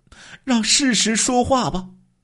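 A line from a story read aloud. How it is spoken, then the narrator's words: Crying through gritted teeth. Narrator (Chinese): 刘秀兰哭着咬牙说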